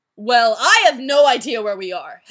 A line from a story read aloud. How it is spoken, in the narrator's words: Heaven said angrily